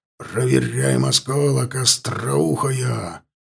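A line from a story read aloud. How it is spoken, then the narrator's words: Growled. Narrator (Russian): прорычал Лотар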